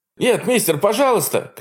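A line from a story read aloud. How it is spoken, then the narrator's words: Young man shouting. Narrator (Russian): кричал парень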